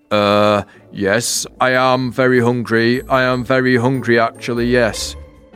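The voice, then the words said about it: Bold, accent-free character voice. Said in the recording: “In a bold, accent-free voice, the night sky began to speak.”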